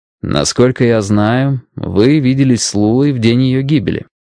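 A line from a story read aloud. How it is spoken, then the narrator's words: Plain question. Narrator (Russian): спросил Страйк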